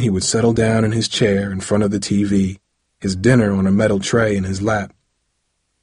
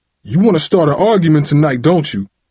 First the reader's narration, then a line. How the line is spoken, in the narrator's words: Dad would shout